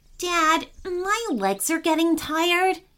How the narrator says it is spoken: Patrick said, trying not to sound like he was whining

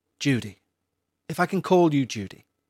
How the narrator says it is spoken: the priest said in a calming tone

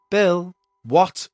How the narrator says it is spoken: he snapped back

